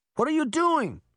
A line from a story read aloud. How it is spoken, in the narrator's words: Sabrina shouted to her sister